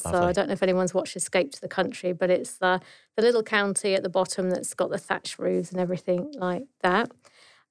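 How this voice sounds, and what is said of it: English accent from Dorset. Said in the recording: “my accent's obviously given me away ... I'm not from Queensland. I'm actually from Dorset in the south coast of England”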